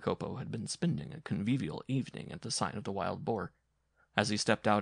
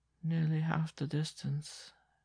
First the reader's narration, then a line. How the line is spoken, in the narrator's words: she repeated in a lifeless voice